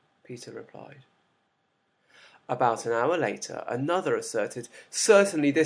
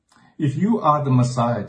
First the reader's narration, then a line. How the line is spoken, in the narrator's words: they said